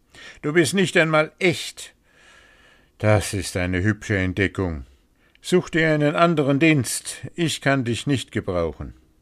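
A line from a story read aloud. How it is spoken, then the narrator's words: Exclaimed. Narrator (German): rief aus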